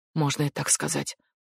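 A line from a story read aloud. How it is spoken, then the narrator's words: Muttered. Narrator (Russian): пробормотала Дженни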